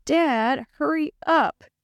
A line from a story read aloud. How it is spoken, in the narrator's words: he moaned